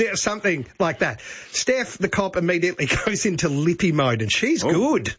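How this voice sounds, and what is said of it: Usual voice. Nothing is said of it.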